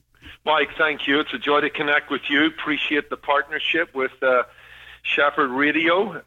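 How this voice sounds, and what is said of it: Irish accent. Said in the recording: “your delightful accent that you have as a result of being from Ireland”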